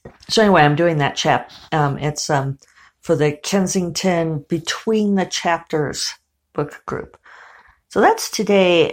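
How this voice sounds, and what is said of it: Slightly hoarse, dry throat. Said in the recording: “I have a little frog in my throat this morning. Actually, it feels more like a dry thing, like a wisp, a ghost in my throat.”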